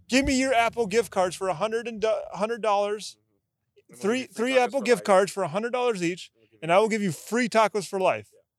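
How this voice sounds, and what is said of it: Put-on Mexican accent. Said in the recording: “From a dude with a Mexican accent.”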